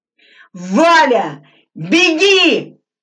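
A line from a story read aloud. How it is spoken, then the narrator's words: Full-force shout. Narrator (Russian): что есть силы закричал Глебов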